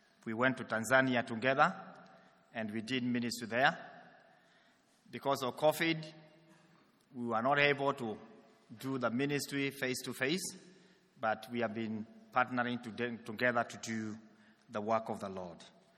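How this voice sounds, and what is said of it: African-accented English. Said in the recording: “my accent will be African.”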